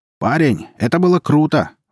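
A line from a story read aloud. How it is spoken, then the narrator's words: Adult shouting. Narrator (Russian): выкрикнул кто-то из взрослых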